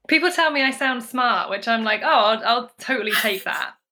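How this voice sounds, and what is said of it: British accent. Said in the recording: “her accent is absolutely delightful... British equals smart”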